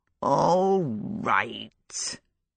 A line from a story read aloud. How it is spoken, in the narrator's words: he said sulkily